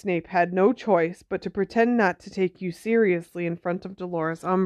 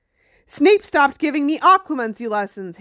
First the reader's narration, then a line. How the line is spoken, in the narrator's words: Harry snarled